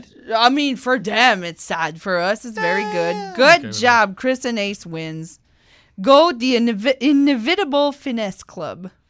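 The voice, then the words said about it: French-accented English. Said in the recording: “that's the French accent.”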